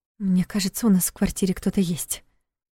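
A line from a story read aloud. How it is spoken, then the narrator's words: Whispered. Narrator (Russian): прошептала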